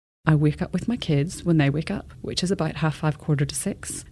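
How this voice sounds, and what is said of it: Northern Irish accent. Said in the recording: “when people hear my accent, they just think, oh, you're Irish”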